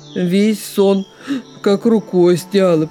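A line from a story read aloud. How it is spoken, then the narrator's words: Grumbling lame wolf. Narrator (Russian): проворчал хромой волк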